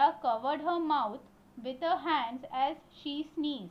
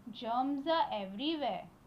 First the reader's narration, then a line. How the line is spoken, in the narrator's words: Riya said